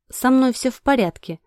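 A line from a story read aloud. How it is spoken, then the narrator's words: Reassuring. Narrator (Russian): заверила я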